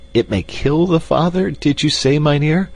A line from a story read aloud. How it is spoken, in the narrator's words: he exclaimed at last in a trembling whisper